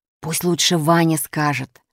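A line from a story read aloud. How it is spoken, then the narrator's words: Secretive whisper. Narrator (Russian): шепнул так, чтобы я не слышал Гришка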